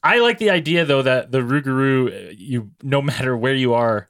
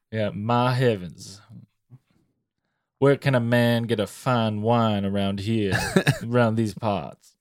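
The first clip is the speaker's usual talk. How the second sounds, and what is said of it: Slow Cajun deep southern gentleman accent. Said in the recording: “you turn into a Cajun, deep southern gentleman... It comes with the accent... sophisticated... You talk slow.”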